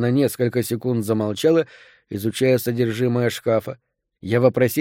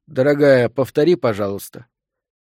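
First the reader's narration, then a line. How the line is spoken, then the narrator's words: Strained, almost normal voice. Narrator (Russian): С колоссальным трудом овладев собой, я почти нормальным голосом попросил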